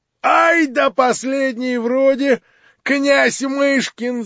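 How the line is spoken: Yelling. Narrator (Russian): завопил Фердыщенко

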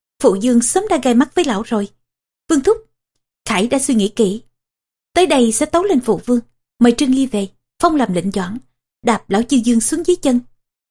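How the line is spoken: Resentful, sullen. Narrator (Vietnamese): Ngạc Quân Khải hậm hực

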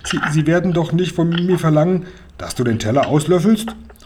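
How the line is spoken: Stuttering. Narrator (German): stotterte Seppel

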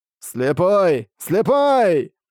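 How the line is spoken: Excited shouting elder. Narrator (Russian): взволнованно кричал старейшина

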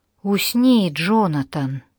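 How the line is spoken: Husky boyish commanding voice. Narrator (Russian): Ее хрипловатый мальчишеский голос обладал странной силой

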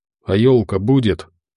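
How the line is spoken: Quiet question. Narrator (Russian): тихо спросил

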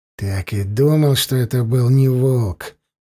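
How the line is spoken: Grumbled. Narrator (Russian): буркнул Даргаш

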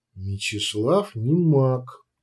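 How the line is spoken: Quiet reminder. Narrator (Russian): тихо напомнила Всеслава

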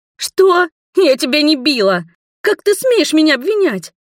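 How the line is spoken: Shouting. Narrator (Russian): закричала Маргари

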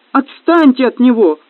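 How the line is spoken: Pleading. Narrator (Russian): взмолилась Кристина

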